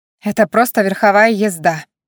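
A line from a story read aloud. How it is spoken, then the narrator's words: Snapping back. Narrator (Russian): огрызнулась я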